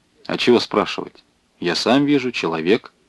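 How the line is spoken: Plain. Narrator (Russian): ответил Вавилов

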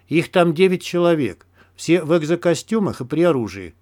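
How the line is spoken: Plain. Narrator (Russian): сказал Кремень

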